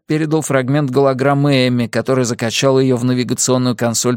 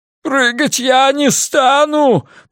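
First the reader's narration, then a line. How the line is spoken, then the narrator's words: Shouting, nearly sobbing. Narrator (Russian): почти рыдая крикнул Дел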